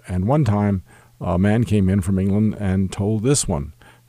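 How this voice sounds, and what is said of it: Usual voice. Nothing is said of it.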